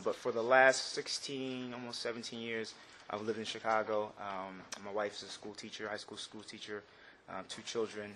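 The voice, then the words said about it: New Jersey accent. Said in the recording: “I'm originally from New Jersey, so the accent, you might hear it.”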